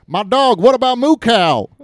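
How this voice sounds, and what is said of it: Put-on Mississippi accent. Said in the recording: “it's in Tupelo, Mississippi, so I hope you don't mind if I do accents.”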